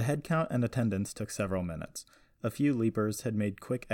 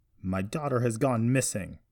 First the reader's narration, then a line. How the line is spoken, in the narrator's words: Joseph yelled over the murmurs of the crowd